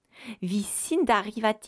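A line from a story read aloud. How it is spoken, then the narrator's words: Boy crying out. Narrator (French): s'écria le garçon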